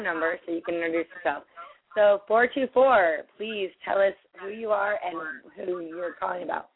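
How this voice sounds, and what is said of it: Hoarse, strained voice. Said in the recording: “I am losing my voice again”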